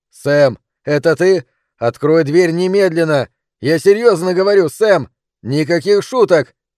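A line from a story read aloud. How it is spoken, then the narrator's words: Father shouting from hidden room. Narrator (Russian): кричал папа из потайной комнаты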